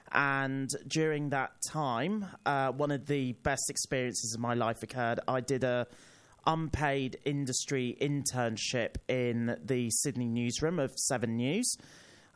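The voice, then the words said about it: British accent. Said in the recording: “as you can tell by my accent, I'm not from Australia, I'm from the UK”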